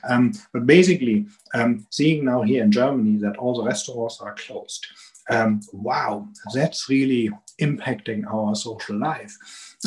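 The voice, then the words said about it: Strong German accent. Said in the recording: “you can hear it from my strong accent”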